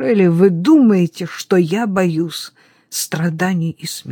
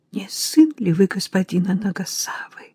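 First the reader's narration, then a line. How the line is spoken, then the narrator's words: Whisper. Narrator (Russian): прошептала она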